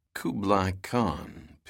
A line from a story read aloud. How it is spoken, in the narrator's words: Pitt muttered